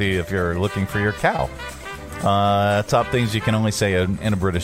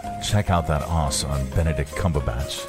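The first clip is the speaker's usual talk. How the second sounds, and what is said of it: Put-on British accent. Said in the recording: “top things you can only say in a British accent”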